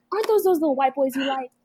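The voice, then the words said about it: Imitates a parent's accent. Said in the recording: “And that accent, like, she's just. She roast them harder than I ever could.”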